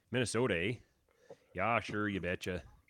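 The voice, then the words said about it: Put-on Minnesota accent. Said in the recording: “it's Alberta accent. It's pretty similar to like Minnesota.”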